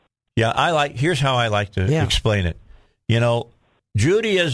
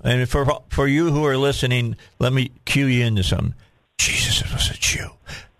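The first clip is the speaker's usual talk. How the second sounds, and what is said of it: Imitates another person's voice. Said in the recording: “That was my Biden imitation. That was my Biden imitation.”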